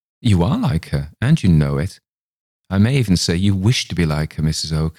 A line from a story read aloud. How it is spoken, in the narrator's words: I answered, laughing